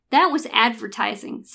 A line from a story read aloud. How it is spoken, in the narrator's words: said the wizard